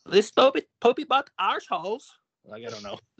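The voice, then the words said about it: Poorly done put-on accent. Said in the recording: “I'm horrible at the accent.”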